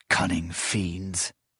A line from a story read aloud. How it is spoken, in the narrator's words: Proyas muttered under his breath